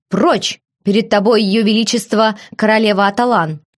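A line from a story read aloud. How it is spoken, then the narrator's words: Growling. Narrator (Russian): прорычал маркиз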